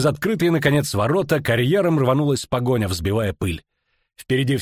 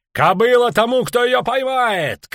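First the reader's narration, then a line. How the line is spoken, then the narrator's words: Shouted. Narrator (Russian): крикнул Скеллен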